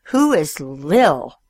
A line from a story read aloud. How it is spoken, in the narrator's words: He spat the words out like bullets